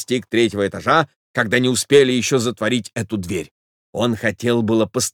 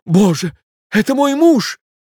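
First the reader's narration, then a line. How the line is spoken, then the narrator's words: Woman's cry. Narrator (Russian): вскрикнула дама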